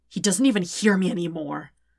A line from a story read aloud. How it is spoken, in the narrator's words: Zuko says harshly